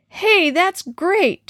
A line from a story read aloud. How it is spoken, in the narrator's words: Tom shouted